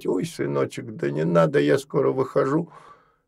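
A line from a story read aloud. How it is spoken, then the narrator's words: Old woman mumbling. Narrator (Russian): старушка, начинала бормотать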